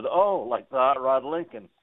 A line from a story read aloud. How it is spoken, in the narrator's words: chuckled and said